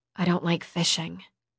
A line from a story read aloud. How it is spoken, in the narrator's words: I muttered dryly